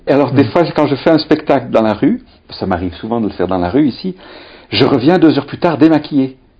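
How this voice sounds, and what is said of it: Thick Belgian French accent. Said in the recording (French): “avec un accent belge, c'est épais”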